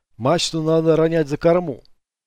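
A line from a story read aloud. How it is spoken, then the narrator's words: Dry. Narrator (Russian): сказал он сухо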